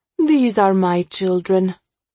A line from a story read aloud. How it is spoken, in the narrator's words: she yawns, clearly exhausted